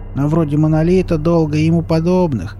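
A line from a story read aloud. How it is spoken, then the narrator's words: Gloomy grumble. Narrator (Russian): уныло проворчал Изя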